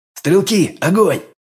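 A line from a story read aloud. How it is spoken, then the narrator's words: Bark. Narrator (Russian): Рявкнул я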